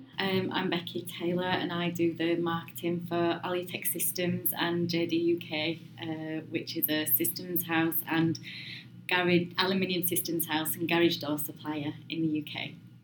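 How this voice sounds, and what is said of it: Yorkshire accent. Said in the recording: “it's just been lovely every time to hear that Yorkshire accent”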